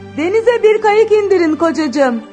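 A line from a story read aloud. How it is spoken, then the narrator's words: Shout. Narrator (Turkish): diye bağırdı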